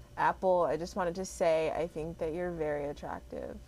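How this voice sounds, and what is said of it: Flat, sad-sounding delivery. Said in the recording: “Why you sound like you want to kill yourself? ... Why you sound sad?”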